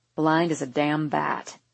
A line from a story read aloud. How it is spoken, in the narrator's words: he mutters loud enough for me to hear clearly over the noise